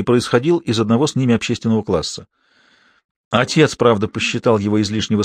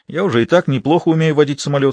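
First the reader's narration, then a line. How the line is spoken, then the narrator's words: Plain. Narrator (Russian): сказал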